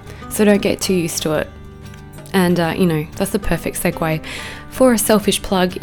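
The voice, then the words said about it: Husky, lower-sounding voice. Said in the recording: “I have COVID right now. So that's the reason why my voice is probably, you know, a little more huskier, a bit sexier than normal.”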